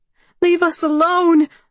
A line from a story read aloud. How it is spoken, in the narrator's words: she yells